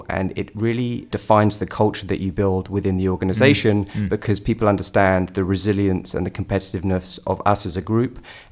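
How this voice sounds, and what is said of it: British-sounding accent. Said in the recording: “I can tell from your accent you're from some other place than where I grew up ... I don't think it's Alabama. I think it sounds like it's more UK.”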